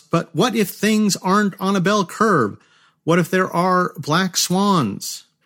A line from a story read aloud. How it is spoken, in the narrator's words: Taleb breaks in past their security cordon and shouts